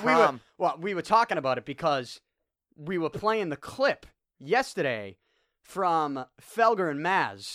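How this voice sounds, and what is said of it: Boston accent. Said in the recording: “your Boston accent ... Porn is one of those words that really sounds great in a Boston accent.”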